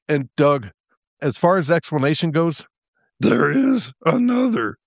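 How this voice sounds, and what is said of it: Yoda-like character voice. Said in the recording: “that's not a bad Yoda impersonation.”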